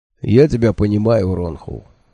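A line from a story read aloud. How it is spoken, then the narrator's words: Gentle. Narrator (Russian): мягко сказал Хехльф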